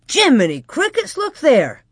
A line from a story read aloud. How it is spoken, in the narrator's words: he exclaimed